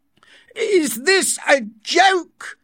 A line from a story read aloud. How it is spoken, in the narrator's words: the director asked angrily